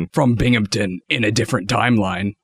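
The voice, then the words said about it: Villain-like character voice. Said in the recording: “You sound like a villain.”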